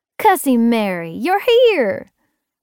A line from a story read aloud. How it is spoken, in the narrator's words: Winnie exclaimed